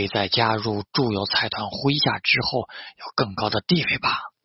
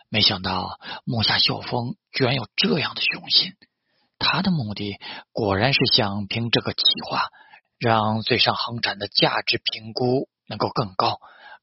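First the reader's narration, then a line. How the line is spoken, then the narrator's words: Admiring exclamation. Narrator (Chinese): 大公好时感叹道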